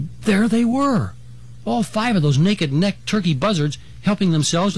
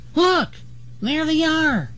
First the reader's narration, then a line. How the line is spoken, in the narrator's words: Dragonfly exclaimed